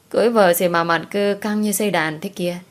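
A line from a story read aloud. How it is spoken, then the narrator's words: Laughing. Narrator (Vietnamese): Diệu Đình bật cười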